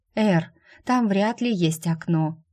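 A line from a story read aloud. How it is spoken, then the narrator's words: Tired female voice. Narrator (Russian): устало сказала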